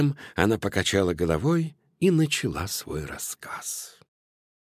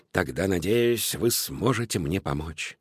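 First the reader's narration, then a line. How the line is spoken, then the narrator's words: Sighing little cat. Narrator (Russian): вздохнула кошечка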